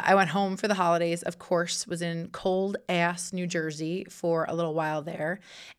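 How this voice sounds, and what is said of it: Sick, squeaky voice cracking in and out. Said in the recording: “as you can probably hear from my voice, I sound a little bit like uh, Peter Brady in the Brady Bunch, just kind of like uh, squeaking and going in and out there... not super attractive”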